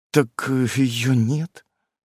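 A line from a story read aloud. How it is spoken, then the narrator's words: Uncertain babbling. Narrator (Russian): неуверенно лепечет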